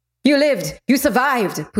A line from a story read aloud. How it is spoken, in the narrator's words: Pute shouted